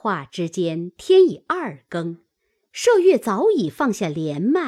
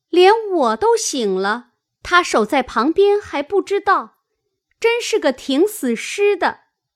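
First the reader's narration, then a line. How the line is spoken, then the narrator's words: Laughing call. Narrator (Chinese): 晴雯因笑唤麝月道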